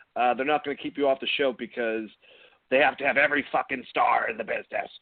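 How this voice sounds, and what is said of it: Imitates another person's voice. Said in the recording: “That was a horrible impression of modern Vince. I can't do modern Vince, thankfully.”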